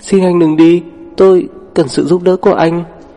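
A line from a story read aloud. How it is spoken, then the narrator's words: Trembling voice. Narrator (Vietnamese): run rẩy nói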